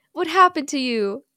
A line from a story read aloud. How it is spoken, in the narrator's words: She asks sadly